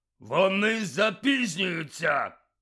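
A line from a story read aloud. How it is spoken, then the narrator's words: Barked gruffly. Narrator (Ukrainian): гаркнув він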